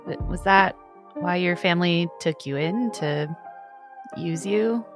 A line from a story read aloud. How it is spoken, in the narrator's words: Ballad like chuckles, but she has a pensive look on her face, and says